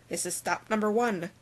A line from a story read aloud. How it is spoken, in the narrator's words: the old Grinchy Claus hissed